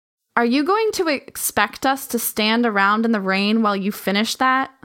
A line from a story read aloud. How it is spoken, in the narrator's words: Sylvester asked